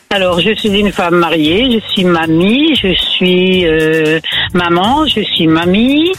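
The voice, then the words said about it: Slight northern French accent. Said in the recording (French): “Elle est accent du nord. ... Ça s'entendait un peu”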